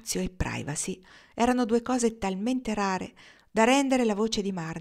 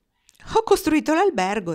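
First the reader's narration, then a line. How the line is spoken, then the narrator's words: Answered laughing. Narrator (Italian): rispose Dwight ridendo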